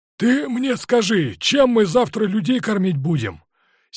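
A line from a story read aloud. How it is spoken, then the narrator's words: Angry shouting into phone. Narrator (Russian): сердито кричал в трубку Токарев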